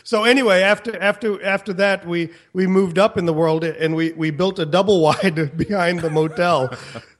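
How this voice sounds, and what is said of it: Southern American accent. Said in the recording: “with the southern accent”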